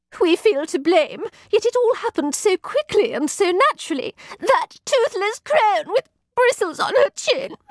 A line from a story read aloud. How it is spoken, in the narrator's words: choked Satin between sobs